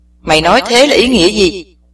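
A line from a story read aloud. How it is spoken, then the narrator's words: Angry question. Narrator (Vietnamese): lão tỏ ra tức giận hỏi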